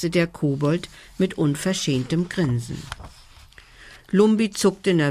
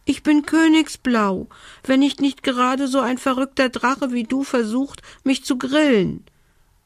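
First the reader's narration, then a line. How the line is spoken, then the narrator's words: Elf's squeak. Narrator (German): piepste die Elfe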